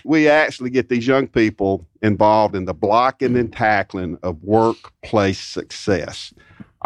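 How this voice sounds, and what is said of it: Loud projecting coach's voice. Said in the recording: “I'm an old football coach, right? Because my voice is carrying pretty good here”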